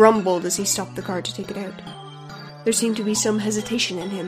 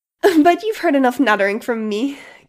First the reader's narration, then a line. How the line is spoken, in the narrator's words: giggled the speaker at the podium